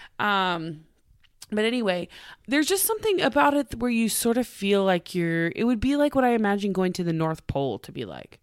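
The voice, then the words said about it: Congested voice with a cold. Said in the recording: “I can't breathe ... because I have a cold,”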